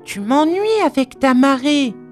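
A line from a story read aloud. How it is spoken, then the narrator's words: Angry shout. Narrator (French): s'écria Noémie en colère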